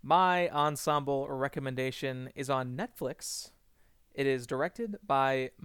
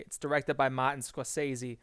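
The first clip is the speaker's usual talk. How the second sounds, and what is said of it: Put-on Boston accent. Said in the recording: “that is all I will do of the Boston accent.”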